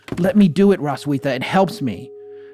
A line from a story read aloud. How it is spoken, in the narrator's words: she would exclaim